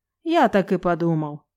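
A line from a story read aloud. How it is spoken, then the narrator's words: Snorting. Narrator (Russian): хмыкнул он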